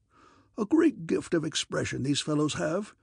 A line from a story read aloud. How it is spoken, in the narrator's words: he chuckled